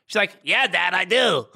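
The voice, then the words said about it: Imitates another person's voice. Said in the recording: “Why do you do this impersonation of her? That's not what she sounds like.”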